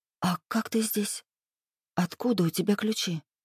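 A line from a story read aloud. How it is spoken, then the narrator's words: Whisper. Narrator (Russian): Прошептала я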